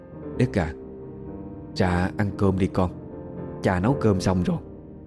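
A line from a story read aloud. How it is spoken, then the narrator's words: Soft call. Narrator (Vietnamese): khe khẽ kêu Đức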